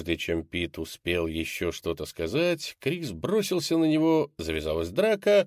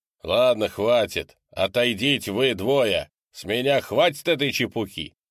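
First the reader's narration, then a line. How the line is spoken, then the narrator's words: Loud. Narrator (Russian): громко сказал Декс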